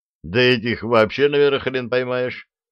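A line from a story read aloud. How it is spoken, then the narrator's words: Chuckling. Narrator (Russian): хохотнул Степаныч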